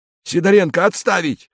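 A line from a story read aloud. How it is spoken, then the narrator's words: Shouting. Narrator (Russian): крикнул другой милиционер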